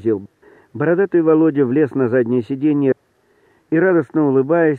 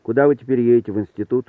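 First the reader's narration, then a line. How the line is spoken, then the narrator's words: Plain. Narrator (Russian): сказал Роман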